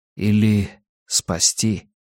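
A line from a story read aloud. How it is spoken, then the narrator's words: Quiet. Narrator (Russian): Джордж Лебей тихо проговорил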